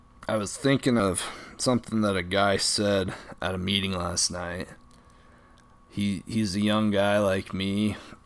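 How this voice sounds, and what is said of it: Slightly raspy voice. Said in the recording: “My voice is getting a little bit raspy.”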